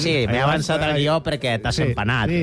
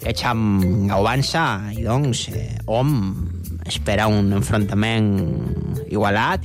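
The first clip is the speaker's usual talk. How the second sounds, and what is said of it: Put-on Girona Catalan accent. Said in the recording (Catalan): “amb accent, sí, copiant l'accent gironí”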